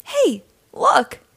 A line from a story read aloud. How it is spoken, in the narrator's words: Gil exclaimed